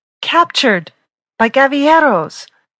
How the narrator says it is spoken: wailed

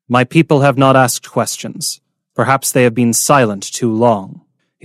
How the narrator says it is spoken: Ruhaya said evenly

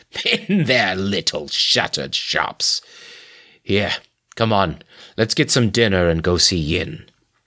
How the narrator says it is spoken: snorted

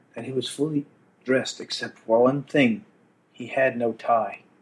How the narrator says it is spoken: she lowered her voice

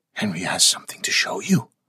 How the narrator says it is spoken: Mary Ellis whispered excitedly

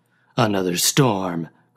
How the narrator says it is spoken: growled Ward

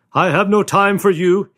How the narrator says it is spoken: he shouted back

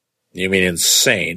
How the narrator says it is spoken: I asked sharply

